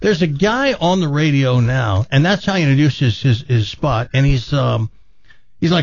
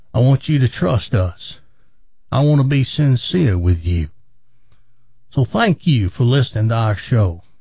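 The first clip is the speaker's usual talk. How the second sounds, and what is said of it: Put-on Southern American accent. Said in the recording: “when somebody has a southern accent, people tend to trust them more ... they fake one ... And that's why I'm using it now.”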